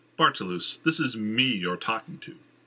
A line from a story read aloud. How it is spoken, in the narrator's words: Jenner said, his tone serious